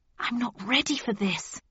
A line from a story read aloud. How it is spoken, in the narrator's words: I hissed